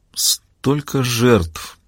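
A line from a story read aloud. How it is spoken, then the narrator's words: Muttering. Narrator (Russian): пробормотала Маура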